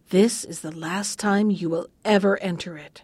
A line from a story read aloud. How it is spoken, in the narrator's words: The old witch was waiting for him at the gate and whispered as he passed